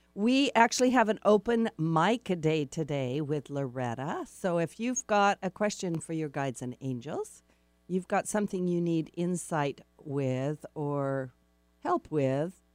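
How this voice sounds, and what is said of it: Congested, slightly clogged voice. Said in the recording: “My voice is clogging up a little bit this morning”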